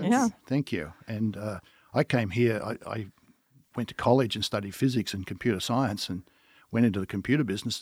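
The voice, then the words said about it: Australian accent. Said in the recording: “as you can tell by my accent, I am Australian”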